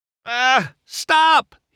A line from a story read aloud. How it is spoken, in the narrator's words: he sputtered